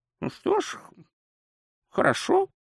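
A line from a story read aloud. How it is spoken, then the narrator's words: Sullen mutter. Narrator (Russian): угрюмо буркнул он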